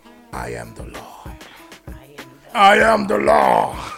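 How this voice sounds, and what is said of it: Imitates another person's voice. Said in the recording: “my good Sylvester Stallone impression”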